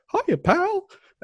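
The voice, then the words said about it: Mickey Mouse voice impression. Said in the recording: “That was a good impression ... That's pretty good”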